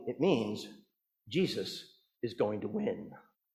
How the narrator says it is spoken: the old man said softly

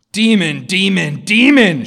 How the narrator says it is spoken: shrieked the prince

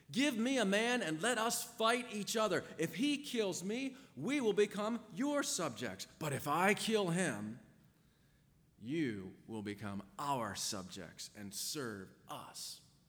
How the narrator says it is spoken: mighty Goliath shouting, taunting them and demanding

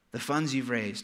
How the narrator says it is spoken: said Betsy

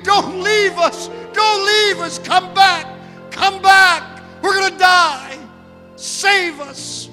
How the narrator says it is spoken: she screamed

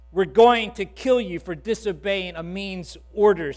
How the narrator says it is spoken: said the captain

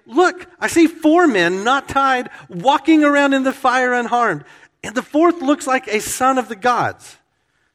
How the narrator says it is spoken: He exclaimed

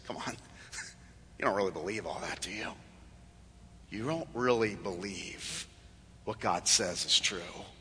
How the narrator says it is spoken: the serpent whispers in your ear and says

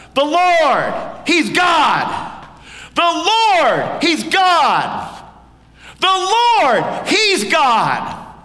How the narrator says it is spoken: we shout out

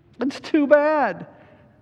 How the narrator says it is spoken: sobbed Lucy

